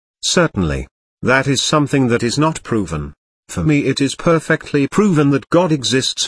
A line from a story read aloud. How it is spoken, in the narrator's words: Vinca said